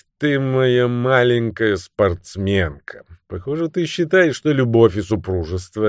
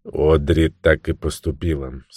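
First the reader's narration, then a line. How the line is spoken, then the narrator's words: Calm. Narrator (Russian): спокойно сказал Невиль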